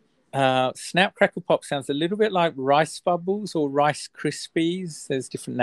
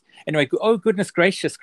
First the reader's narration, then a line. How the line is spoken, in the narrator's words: cried Mr